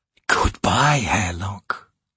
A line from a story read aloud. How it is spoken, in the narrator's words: he hissed